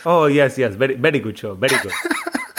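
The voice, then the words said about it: Exaggerated put-on accent imitating parents. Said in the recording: “my family doesn't sound like that. But for some reason, whenever I impersonate them, I do a fresh accent.”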